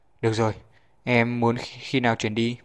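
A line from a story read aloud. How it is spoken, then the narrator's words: Sighing. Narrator (Vietnamese): Trần Đông Thăng thở dài, nói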